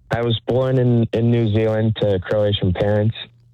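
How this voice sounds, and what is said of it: Interesting foreign accent. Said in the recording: “you have an interesting accent.”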